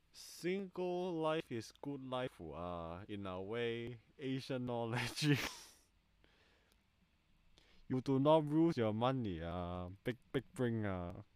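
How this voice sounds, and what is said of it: Put-on heavy Asian accent. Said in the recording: “I'm speaking in a, is it like a heavy Asian accent? I'm just speaking like how my friends say English.”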